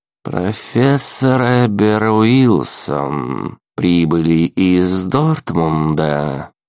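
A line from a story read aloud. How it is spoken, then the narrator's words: Slow speech. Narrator (Russian): медленно сказала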